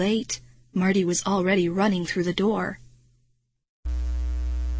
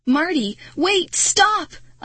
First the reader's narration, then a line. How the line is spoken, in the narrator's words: I shouted as I ran